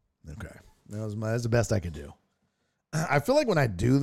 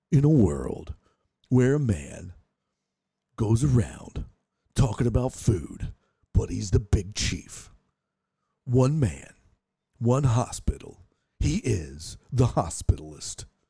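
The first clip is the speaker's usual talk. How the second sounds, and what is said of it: Movie-trailer promo voice impression. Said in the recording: “I'm not actually trying to do the impression of the guy that did the promos. I'm doing an impression of, what was the dude's name? ... It was Pablo Francisco.”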